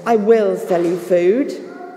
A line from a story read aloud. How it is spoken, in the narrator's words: said Joseph in his sternest voice